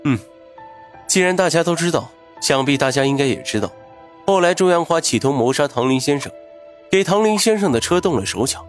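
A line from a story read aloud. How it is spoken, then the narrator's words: Smiling. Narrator (Chinese): 云峰笑了笑，接着说道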